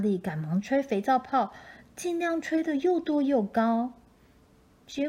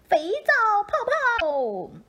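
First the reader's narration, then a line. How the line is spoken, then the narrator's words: Shouting. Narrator (Chinese): 小丑也对莎莉喊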